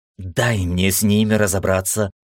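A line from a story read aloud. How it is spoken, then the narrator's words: Hissing. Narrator (Russian): зашипела Ира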